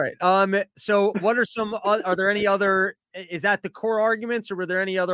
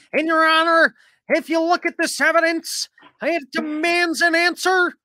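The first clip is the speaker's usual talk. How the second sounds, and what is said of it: Mark Levin impression. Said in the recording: “My Mark Levin impression.”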